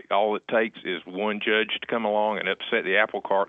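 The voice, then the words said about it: Local North Carolina Southern accent. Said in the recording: “from your accent, sounds like you might come from this area”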